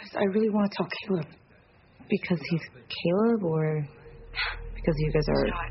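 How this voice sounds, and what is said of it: Usual voice. Nothing is said of it.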